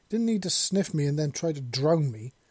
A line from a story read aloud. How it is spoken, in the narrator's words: Seven exclaimed loudly and angrily